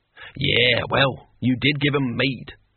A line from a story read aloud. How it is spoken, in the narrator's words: cackled Cohen